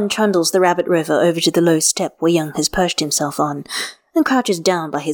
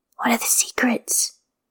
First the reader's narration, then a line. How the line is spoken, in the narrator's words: asks in a whisper